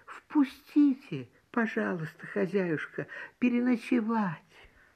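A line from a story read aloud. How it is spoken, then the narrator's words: Small bird's plaintive voice. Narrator (Russian): маленькая береговушка просит жалобным голоском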